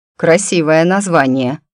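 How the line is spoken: Officer's amused grunt. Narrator (Russian): хмыкнул майор

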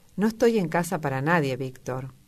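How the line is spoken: Said with sigh. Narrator (Spanish): dijo con un suspiro

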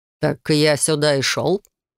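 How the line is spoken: Scoffing. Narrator (Russian): хмыкнул незнакомец

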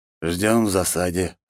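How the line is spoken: Calm reply. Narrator (Russian): спокойно ответил

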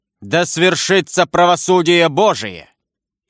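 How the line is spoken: Loud shout. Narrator (Russian): крикнул громким голосом

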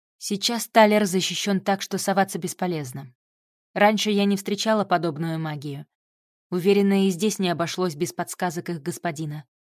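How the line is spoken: Calm. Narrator (Russian): спокойно ответила ей Вика

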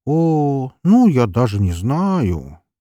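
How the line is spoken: Drawn-out drawl. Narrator (Russian): протянул

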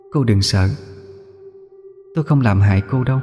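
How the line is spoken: Soft eerie echoing. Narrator (Vietnamese): Cô ấy khẽ cất giọng âm u, vang vang trong gió

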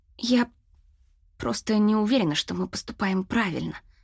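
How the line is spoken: Very quiet. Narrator (Russian): сказала так тихо

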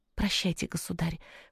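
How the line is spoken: Whispered. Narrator (Russian): прошептала Зизи

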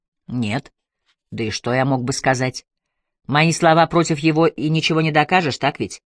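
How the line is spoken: Plain. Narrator (Russian): спросил Тревор

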